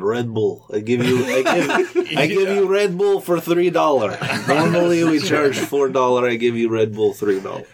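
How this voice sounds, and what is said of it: Exaggerated thick Russian accent. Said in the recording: “this Russian, terrible Russian accent ... really thick Russian accent”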